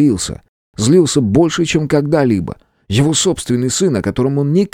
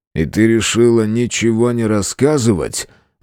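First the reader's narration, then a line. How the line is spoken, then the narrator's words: Rude question. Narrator (Russian): Грубо спросил Виктор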